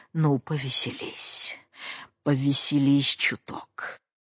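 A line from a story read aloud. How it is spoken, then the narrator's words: Furious trembling mutter. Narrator (Russian): остервенелый, пробормотал, трясясь от злобы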